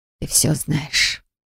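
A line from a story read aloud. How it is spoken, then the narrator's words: Whisper. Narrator (Russian): прошептала мама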